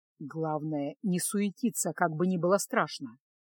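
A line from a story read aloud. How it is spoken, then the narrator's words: Whisper. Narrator (Russian): шепнул Кайл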